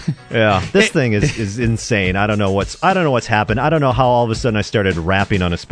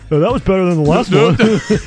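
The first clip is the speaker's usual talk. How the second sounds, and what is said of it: Imitates another person's voice, cartoonish. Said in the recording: “your Mike Keller imitation ... He sounds like Barney Rubble now all of a sudden.”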